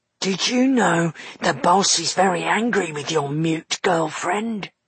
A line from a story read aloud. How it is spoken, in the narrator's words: whispered Flatnose to Dustfinger